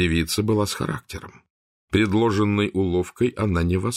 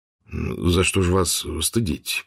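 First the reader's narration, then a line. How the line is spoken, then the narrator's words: Timid babble. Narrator (Russian): пролепетал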